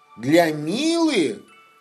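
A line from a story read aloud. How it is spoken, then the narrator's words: Surprised exclamation. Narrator (Russian): удивленно воскликнул Лапа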